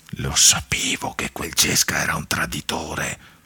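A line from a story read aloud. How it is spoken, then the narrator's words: Murmuring now and then. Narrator (Italian): mormorava ogni tanto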